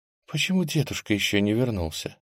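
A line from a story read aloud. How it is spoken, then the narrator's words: Barely audible voice. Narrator (Russian): Едва слышно раздался голос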